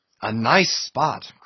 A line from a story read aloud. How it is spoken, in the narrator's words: cried Flask